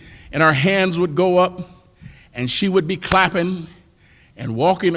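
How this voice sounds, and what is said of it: Usual voice. Nothing is said of it.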